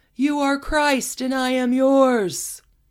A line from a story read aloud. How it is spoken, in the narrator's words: Olga screaming